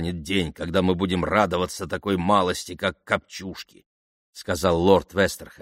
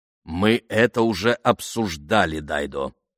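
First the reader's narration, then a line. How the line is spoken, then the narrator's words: Plain. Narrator (Russian): ответил лорд Вестерхэм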